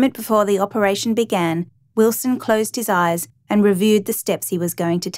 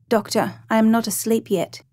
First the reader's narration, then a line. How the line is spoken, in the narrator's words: the patient awoke and murmured